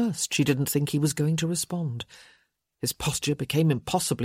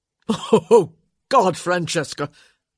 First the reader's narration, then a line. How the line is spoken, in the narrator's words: he said, his voice punctuated with derisive laughter